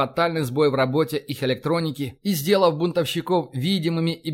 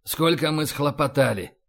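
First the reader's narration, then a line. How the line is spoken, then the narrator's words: Mutter. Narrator (Russian): пробормотал Файн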